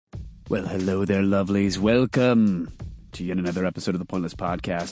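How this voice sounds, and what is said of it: Congested, stuffy-sounding voice. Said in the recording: “I'm still fighting a sinus thing. I can hear it in my voice.”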